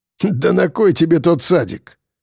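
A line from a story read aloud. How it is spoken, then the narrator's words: Laughing. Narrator (Russian): засмеялся он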